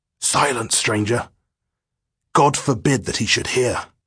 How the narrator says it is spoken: one old chap hoarsely whispered

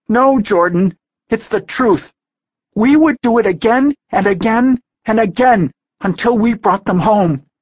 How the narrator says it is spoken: Taylor cried

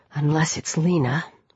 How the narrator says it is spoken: a small inner voice whispered

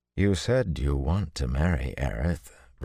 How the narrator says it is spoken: Rand said as gently as he could

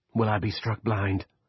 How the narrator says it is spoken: Lester asked, his growly prayer voice rising slightly

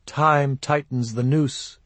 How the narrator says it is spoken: she murmured

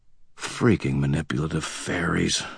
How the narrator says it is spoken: I muttered under my breath

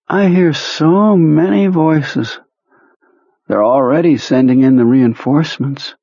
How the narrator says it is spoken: Dreamily, he said

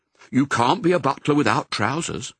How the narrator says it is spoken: said Nanny Butler firmly

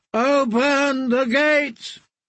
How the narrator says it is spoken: Strongbore in his booming voice called out

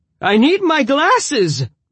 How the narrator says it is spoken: the old man cried

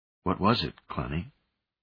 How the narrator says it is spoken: he asked softly

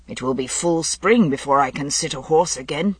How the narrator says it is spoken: he observed gloomily to Guinevere

